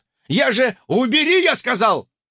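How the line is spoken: Barked. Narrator (Russian): рявкнул сосед

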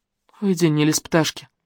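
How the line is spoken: Gloomy smirking. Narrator (Russian): Мрачно ухмыльнулась Лерон

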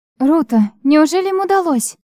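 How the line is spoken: Excited exclamation. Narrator (Russian): воскликнула я, понимая, что войску все же удалось справиться с разбойниками

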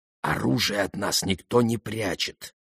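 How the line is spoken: Whisper. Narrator (Russian): продолжал Шуллер шепотом

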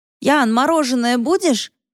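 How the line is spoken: Shouted from a distance. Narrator (Russian): крикнул от дома Сергей

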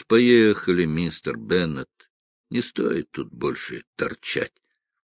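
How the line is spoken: Tired. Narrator (Russian): Джо устало произнес

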